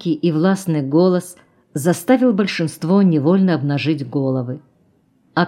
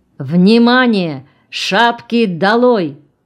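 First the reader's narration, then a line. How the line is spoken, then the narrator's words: Old man's sudden shout. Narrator (Russian): старый большевик Налимов неожиданно крикнул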